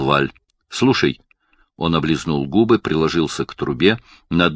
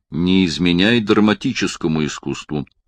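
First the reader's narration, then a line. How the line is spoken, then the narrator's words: Dry remark. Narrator (Russian): сухо заметил Барни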